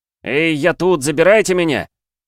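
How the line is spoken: Shout. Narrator (Russian): крикнул Андрей по-русски

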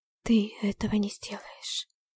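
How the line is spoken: Whispered. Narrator (Russian): прошептала

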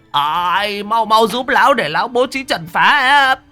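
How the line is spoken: Old man shouting urgently. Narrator (Vietnamese): Lão Huấn hét lên

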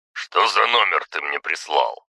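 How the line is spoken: Grumbled. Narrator (Russian): проворчал

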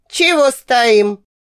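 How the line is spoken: Barked. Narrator (Russian): Вдруг как рявкнет

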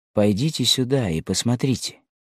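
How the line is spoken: Quiet call. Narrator (Russian): тихо позвал Елену

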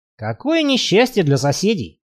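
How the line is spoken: Wry snort. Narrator (Russian): хмыкнул Барри

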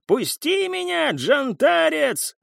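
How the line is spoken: Man yelling. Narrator (Russian): заорал мужчина

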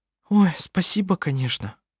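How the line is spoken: Sighing. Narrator (Russian): вздохнула Анна-Мария

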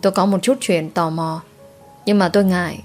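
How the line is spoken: Quiet hesitant voice. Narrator (Vietnamese): nhỏ giọng

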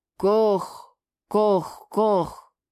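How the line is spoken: Hoarse call behind wall. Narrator (Russian): Хрипло раздалось из-за стены

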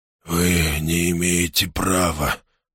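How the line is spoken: Hoarse wheeze. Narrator (Russian): прохрипел он

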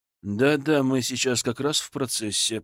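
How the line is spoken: Grumbling. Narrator (Russian): проворчал Зотов

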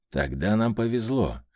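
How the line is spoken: Snorting. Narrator (Russian): хмыкнул Данила

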